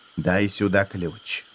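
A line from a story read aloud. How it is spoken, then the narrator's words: Whispering. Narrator (Russian): шепнул гиргибилец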